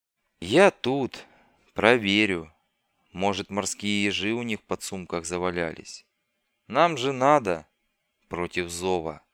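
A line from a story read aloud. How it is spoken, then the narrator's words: Muttered by scout. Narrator (Russian): пробормотал скаут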